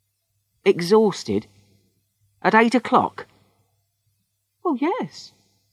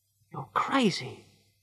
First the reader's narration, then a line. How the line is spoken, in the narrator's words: she said quietly